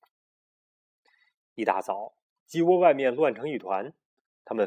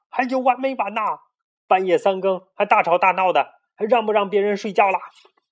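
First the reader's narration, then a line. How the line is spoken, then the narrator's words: Shouting from outside. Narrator (Chinese): 外边有人在喊了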